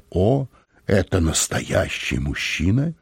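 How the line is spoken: Crystal-clear voice. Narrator (Russian): госпожа Мозес произнесла хрустальным голосом

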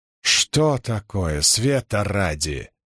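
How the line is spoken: Angry mutter. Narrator (Russian): сердито пробормотала Мэрилиль

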